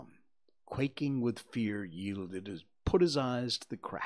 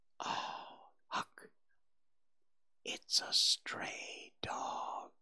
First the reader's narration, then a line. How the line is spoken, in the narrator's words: His whisper was hardly audible when he said